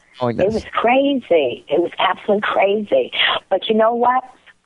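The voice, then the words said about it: Brooklyn accent. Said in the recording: “my accent because everybody knows it's like Brooklynese ... it's Brooklynese”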